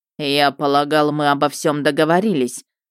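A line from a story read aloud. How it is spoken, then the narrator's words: Cold remark. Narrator (Russian): заметил Мердок холодно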